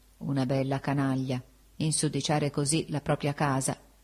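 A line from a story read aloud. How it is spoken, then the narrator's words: Drowsy murmur. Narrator (Italian): prima d'addormentarmi, mormorai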